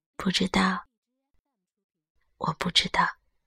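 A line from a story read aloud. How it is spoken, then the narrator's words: Quiet, subdued. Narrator (Chinese): 他小声说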